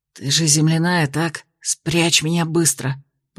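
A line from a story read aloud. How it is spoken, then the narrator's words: Hiss. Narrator (Russian): прошипел он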